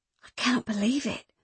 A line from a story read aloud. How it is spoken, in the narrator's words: whispered Beth